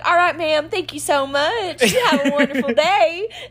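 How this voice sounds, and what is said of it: Southern Texas customer service voice. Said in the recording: “my Texas accent comes out more... Your customer service voice... it'll, like, slowly start getting more and more southern”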